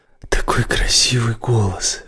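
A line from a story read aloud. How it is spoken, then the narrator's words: Breathed out. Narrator (Russian): выдохнул Рай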